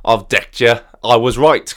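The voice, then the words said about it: Jokey put-on Shrewsbury accent. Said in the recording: “jokingly puts on that accent from Shrewsbury”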